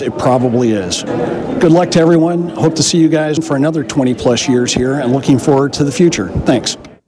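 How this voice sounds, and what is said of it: Smooth rich radio voice. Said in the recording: “he's got a real good radio voice”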